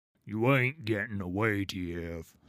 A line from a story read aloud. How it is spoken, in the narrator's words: he growls